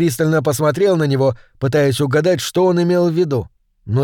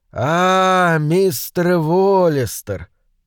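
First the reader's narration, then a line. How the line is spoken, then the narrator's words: Drawn out. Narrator (Russian): протянул он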